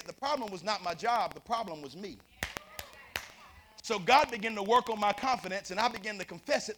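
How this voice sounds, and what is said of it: Southern country Tennessee accent. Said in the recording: “I'm sitting here from Tennessee ... I could tell from your speech. I'm talking country.”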